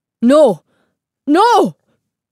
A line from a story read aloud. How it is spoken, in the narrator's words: Señor Castillo cried, as the life went out of Ivan's eyes